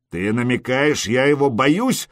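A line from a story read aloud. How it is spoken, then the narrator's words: Growled. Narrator (Russian): рыкнул Скьорн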